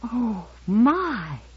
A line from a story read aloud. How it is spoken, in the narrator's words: she whispered